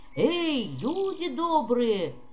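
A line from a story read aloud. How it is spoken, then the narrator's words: Shouting. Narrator (Russian): крикнул он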